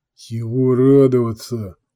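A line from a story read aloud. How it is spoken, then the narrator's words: Grumbled. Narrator (Russian): пробурчал Петля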